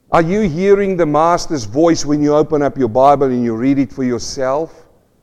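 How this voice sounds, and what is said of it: South African accent. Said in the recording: “this South African accent”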